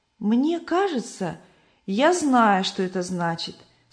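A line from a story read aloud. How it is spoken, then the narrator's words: Plain. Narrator (Russian): сказала христиана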